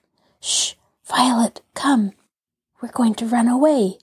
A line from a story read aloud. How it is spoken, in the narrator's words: she whispered